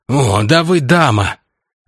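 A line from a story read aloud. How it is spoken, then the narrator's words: Breathy exclamation. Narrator (Russian): выдохнул Упырский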